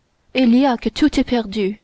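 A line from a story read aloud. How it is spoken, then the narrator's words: Terrified exclamation. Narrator (French): s'écria Buckingham en devenant pâle comme un trépassé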